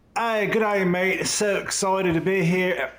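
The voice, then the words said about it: Put-on Australian accent, not convincing. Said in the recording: “I kind of went into my Australian accent there for a minute... Is that what that was supposed to be?... I was going to do an English accent, but it kind of morphed into Australian.”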